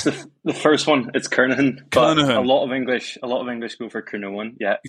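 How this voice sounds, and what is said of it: Northern Irish accent. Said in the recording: “as you can tell from his accent, back home in Ireland, Northern Ireland”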